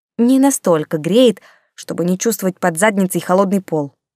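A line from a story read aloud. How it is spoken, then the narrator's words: Grumbling. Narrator (Russian): буркнула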